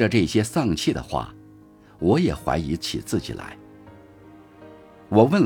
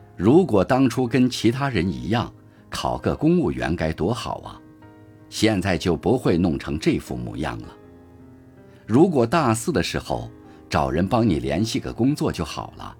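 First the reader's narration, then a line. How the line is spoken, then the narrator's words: Sighing voices over phone. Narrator (Chinese): 电话那头，众人一边叹着气，一边说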